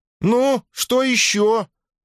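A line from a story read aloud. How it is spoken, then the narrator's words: Desperate shout. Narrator (Russian): в отчаянии крикнула она, чувствуя, что дружинник за ее спиной медлит в нерешительности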